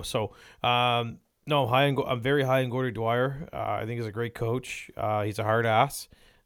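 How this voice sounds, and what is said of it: Slightly raspy voice. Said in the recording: “Sorry about my voice. It's kind of a little raspy”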